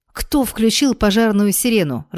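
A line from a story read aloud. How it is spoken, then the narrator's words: Irritated question. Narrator (Russian): раздраженно спросила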